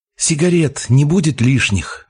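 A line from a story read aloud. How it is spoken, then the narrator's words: Young soldier breathing out. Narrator (Russian): выдохнул солдатик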